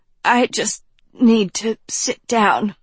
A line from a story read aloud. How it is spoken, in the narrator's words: Professor Dovey stammered